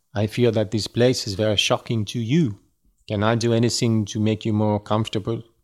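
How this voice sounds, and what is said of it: Deliberately bad put-on French accent. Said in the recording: “I'll read it in a French accent. ... I am reading it with a French accent just because it is fun for me. ... is it a good French accent? No.”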